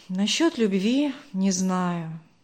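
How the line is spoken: Heavy sigh. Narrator (Russian): тяжело вздохнул Даниил

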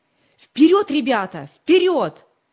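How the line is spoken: Shouting while running. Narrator (Russian): крикнул он на бегу собакам

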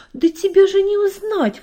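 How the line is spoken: Father exclaiming. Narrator (Russian): воскликнул папа

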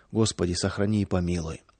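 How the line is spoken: Villagers whispering under breath. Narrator (Russian): Деревенские шептали про себя

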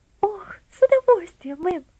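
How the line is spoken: Girl's joyful exclamation. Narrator (Russian): воскликнула девочка, и глаза ее радостно засверкали

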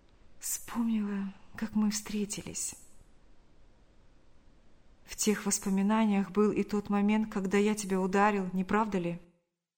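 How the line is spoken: Sighing, barely audible whisper. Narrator (Russian): Вздохнув, она еле слышно прошептала

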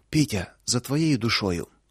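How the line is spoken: Breathed out. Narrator (Russian): только и выдохнула Луша

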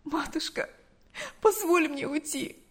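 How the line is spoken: Pleading. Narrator (Russian): взмолилась Галя

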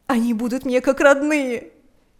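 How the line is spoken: Shouting through sobs. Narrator (Russian): кричала она сквозь рыдания

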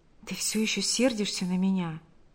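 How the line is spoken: Whisper. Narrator (Russian): прошептал Павел

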